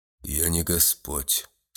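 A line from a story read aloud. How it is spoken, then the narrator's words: Dry reply. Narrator (Russian): сухо отозвался господин в синих одеждах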